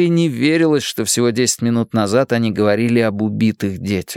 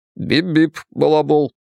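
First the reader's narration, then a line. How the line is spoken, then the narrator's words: Serious voice. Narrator (Russian): серьезным голосом ответил Билл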